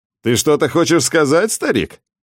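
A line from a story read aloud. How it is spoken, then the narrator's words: Mocking. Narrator (Russian): насмешливо добавил он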